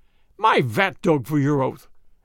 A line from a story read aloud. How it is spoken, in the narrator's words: exclaimed the vrouw